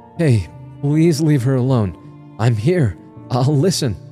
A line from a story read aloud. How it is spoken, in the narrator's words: half shouted in a trembling voice